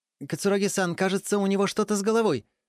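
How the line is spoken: Exclaiming. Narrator (Russian): воскликнул Дайго Рен

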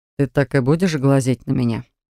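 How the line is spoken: Amused snort, teacher. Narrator (Russian): хмыкнул преподаватель

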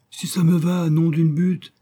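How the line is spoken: Exclaiming. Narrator (French): s'écria Benzouf

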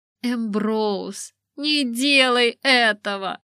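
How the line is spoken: Near moan. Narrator (Russian): почти простонала массажистка Лисы

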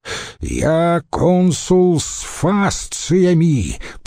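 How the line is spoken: Thundering. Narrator (Russian): прогремел обычно апатичный Павел

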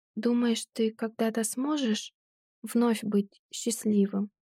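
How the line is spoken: Quiet voice. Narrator (Russian): Голос Клэм звучит тихо

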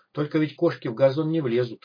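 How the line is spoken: Snorting. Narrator (Russian): хмыкнул Док

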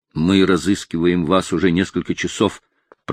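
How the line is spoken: Agitated voice. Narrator (Russian): проговорил он взволнованным голосом

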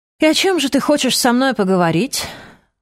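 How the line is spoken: Sigh. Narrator (Russian): вздохнул

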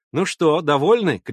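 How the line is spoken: Shout. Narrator (Russian): крикнула она

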